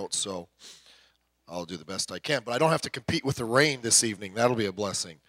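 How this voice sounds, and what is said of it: Hoarse voice from a cold. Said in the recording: “My voice is a little bit not good. I have a cold and it's in my throat”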